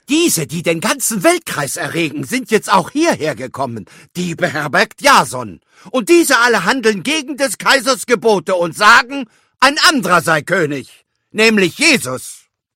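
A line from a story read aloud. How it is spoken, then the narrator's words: Crowd shouting. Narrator (German): schrien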